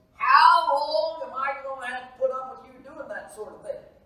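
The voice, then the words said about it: Put-on country Kentucky accent. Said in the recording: “My mom was from Kentucky, so if I put on my country accent ... That's what she sounded like.”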